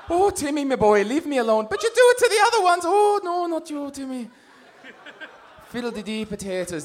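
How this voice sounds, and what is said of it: Put-on Irish accent. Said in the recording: “That's all I can say in Irish accent.”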